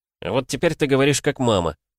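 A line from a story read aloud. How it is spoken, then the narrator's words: Snorting. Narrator (Russian): фыркнул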